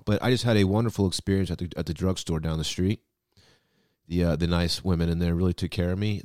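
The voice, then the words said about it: Voice sounds sick and unwell. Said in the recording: “as you can probably tell by my voice, I don't feel well.”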